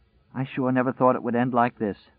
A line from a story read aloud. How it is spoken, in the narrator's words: With a sigh that was more than half a sob, she said